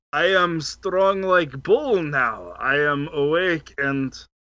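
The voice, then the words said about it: Strong put-on foreign accent. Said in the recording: “accent has changed. ... Your accent is strong.”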